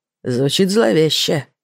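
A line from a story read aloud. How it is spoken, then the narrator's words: Muttered. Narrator (Russian): пробормотал Зиганшин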